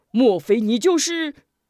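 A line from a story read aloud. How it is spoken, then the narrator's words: Startled question. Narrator (Chinese): 心中一颤，问道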